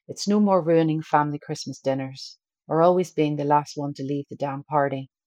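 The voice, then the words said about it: Northern Irish accent. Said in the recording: “my Northern Irish exact accent ... I will stick to my original accent”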